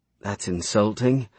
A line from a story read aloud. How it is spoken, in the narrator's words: Aria said wearily